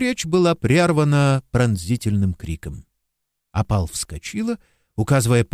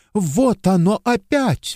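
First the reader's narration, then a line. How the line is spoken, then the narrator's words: Exclamation. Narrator (Russian): воскликнула она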